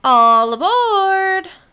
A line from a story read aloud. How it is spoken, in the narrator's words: the conductor shouted